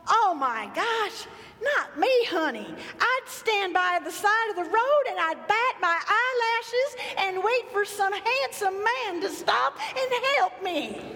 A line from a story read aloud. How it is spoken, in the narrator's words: she said to me in that sweet Southern drawl